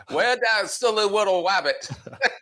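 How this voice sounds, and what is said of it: Elmer Fudd cartoon voice. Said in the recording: “your Elmer Fudd impression is way better than your English accent”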